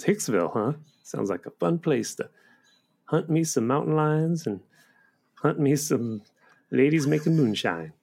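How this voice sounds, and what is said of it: Corn-fed rural American accent. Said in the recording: “for a Russian immigrant, he has a surprisingly corn-fed accent”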